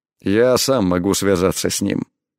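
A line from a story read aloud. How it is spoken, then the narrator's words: Cold, curt. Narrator (Russian): холодно бросил он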